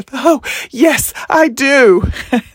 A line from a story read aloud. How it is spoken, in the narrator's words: stated unequivocally between gasps of breath